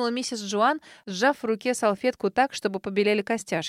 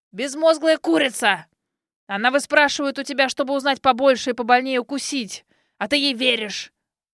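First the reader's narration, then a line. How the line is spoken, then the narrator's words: Old man growling. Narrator (Russian): рыкнул старик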